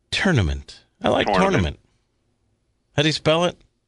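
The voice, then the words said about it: East Coast pronunciation of 'tournament'. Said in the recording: “that's how I was raised. It's sort of an East Coast dialect.”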